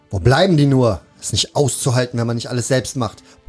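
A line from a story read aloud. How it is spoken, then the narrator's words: Blustering grumble across hall. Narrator (German): polterte er durch die Halle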